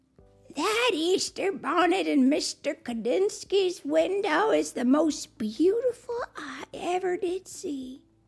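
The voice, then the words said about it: Old woman's voice and accent. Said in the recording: “the old woman in that accent, It actually sounds a little bit like Tiana.”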